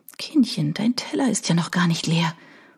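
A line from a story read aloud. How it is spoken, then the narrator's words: Whispering in ear. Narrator (German): flüstert mir Oana ins Ohr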